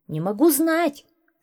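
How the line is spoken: Shouting. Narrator (Russian): закричал Башмаков

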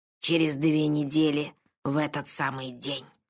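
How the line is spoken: Sorcerer muttering. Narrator (Russian): пробормотал колдун

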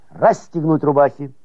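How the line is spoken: Shouting. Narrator (Russian): старшина их крикнул

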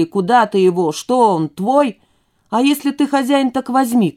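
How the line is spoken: Shout. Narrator (Russian): крикнул

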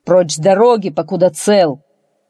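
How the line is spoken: Impatient bark, fat man. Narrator (Russian): толстяк нетерпеливо рявкнул

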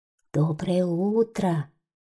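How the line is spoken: Quiet cloud's reply. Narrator (Russian): тихо ответило белое облако

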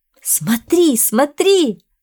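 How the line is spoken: Woman, nearly shouting. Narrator (Russian): почти кричала красивая женщина

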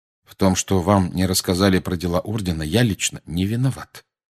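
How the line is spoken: Calm. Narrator (Russian): спокойно проговорил Сириус

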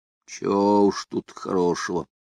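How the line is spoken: Gloomy reply. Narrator (Russian): мрачно отозвался сухой лог

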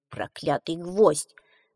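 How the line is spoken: Grumbling old woman. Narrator (Russian): ворчала старушка

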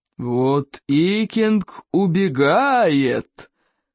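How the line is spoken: Thundering. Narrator (Russian): прогремел Стоик

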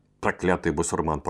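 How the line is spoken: Grumbled. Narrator (Russian): проворчал Спицын

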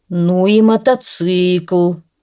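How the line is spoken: Sighing. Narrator (Russian): вздохнул директор

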